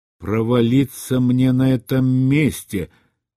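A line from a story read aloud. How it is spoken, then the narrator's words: Grumbling. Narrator (Russian): пробурчал Рэндом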